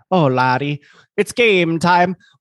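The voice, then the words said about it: Poor put-on Irish accent. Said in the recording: “I was trying to do that with an Irish accent ... Irish ... Not even close”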